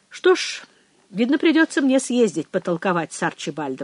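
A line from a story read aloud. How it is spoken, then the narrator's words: Plain. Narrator (Russian): сказал, наконец, Пэдди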